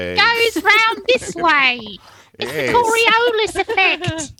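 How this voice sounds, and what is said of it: Put-on Australian accent. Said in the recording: “He's a bit of a loner down in Australia. ... Oh, it's very good. And bonus points if you do the rest of the segment in that accent. ... It's pretty good. Sounds like Shrek.”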